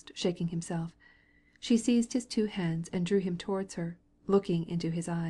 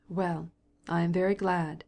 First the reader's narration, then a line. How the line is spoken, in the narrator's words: he said, coldly